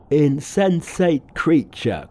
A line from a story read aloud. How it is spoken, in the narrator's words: cried Pigsy